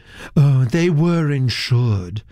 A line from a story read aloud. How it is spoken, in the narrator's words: said Miss Nunn dreamily